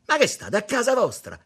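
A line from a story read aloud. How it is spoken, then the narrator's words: Shouting, still stuck. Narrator (Italian): gli gridò ancora infognato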